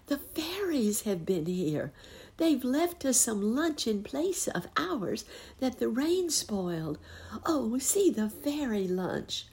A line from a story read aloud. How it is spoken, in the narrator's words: cried the girl